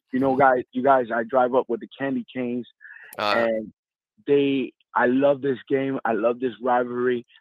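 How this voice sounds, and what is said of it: Slightly hoarse voice. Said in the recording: “I'm a little hoarse because I was at the game.”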